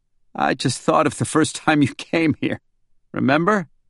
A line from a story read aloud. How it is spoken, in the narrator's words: Working hard to suppress more laughter, he said